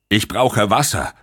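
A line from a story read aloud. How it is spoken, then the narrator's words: Loud call. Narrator (German): rief er laut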